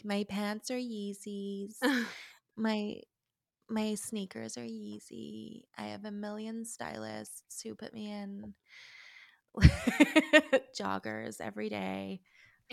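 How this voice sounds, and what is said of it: Vague put-on American accent. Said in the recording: “is that your American accent? ... that was just my vague Courtney”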